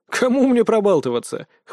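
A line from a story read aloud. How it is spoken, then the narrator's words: Snorting. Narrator (Russian): хмыкнул я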